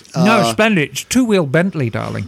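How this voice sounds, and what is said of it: Put-on English accent. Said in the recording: “in an English accent, you have to imagine it.”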